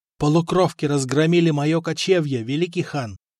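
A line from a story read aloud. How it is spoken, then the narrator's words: Plain. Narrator (Russian): ответил парень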